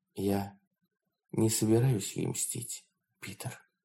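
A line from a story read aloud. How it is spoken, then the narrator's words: Quiet. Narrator (Russian): Лоон тихо произнесла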